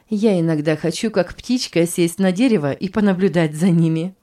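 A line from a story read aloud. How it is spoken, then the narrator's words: Laughing. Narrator (Russian): засмеялась Роза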